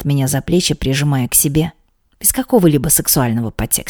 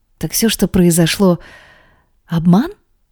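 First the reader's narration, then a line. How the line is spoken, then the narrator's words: Confused question. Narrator (Russian): растерянно спрашиваю его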